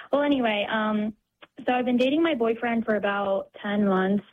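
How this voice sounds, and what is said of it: Nervous, shaking voice. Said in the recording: “I'm a little nervous right now ... My voice is shaking.”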